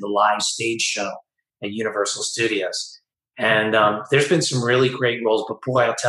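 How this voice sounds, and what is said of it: Usual voice. Nothing is said of it.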